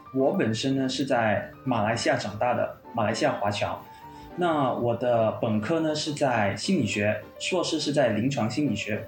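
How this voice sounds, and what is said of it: Slight Malaysian Chinese accent. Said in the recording (Chinese): “有一点点口音 ... 马来西亚的华裔”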